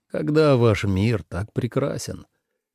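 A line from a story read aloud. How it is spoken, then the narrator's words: Sighing. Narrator (Russian): Тлингель вздохнул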